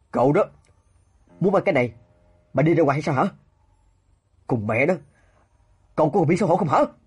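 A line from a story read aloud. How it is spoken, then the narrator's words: Furious blurted outburst. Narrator (Vietnamese): Tiêu Tân Nghiêm vì quá tức giận mà buộc miệng thêm vào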